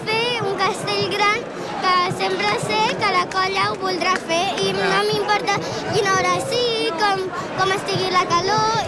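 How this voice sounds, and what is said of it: Local Valls Catalan accent. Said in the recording (Catalan): “amb aquest accent tan d'aquí, el Valtros”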